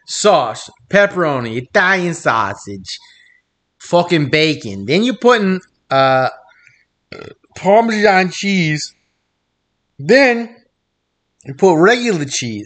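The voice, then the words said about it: Bad Italian accent sounding Southern. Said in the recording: “your Italian accent is the worst. It's like Southern and Italian. ... My Italian accent is beyond racist. ... I heard the country.”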